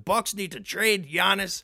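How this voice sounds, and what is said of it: Impression of another person's voice. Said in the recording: “That's my King impression.”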